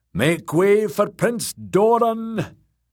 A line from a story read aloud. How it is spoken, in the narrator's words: Ariohota boomed out